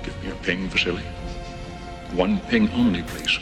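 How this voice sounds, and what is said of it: Put-on Russian accent. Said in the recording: “his Russian accent as Soviet sub-captain Ramius”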